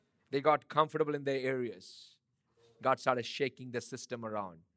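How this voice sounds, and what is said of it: Loud, harsh voice. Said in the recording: “my voice is a little louder and harsh”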